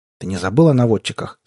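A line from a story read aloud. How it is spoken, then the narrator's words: Plain. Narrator (Russian): спросил капитан караула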